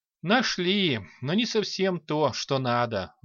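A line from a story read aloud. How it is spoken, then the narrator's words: Sighing. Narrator (Russian): вздохнул бог войны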